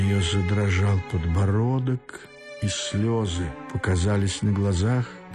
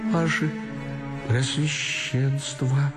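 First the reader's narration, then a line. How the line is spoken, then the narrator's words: Thin voice, crying bitterly. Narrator (Russian): проговорила тонким голоском, уже горько плача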